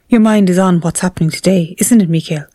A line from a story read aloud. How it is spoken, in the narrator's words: said